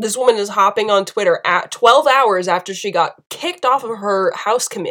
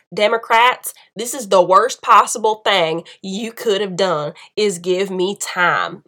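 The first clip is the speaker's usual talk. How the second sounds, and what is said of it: Exaggerated put-on Southern accent. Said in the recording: “did you like my southern accent? ... it's hyperbole”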